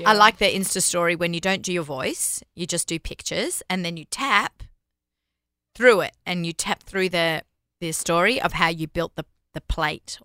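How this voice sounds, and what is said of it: Australian accent. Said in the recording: “everybody loves an Aussie accent. Me and ... are both from Sydney ... I'm still so Aussie ... she holds on to her Australian accent”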